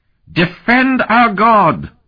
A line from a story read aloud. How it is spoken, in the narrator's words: the priest shrieked, his lips flecked with foam